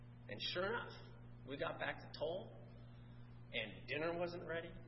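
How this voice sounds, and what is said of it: Usual voice. Nothing is said of it.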